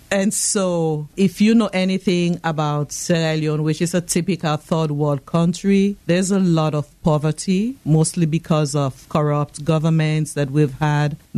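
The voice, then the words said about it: Sierra Leonean West African accent. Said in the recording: “I know you can tell from my accent that I'm not from around here. I was born and raised in Freetown, Sierra Leone, West Africa.”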